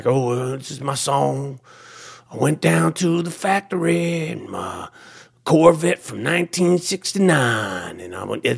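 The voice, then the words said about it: Imitates a famous rock singer's voice. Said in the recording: “that's my impression of Bruce Springsteen”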